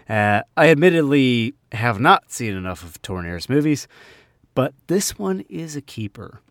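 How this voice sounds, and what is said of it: New Jersey American accent. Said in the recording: “my Jersey accent”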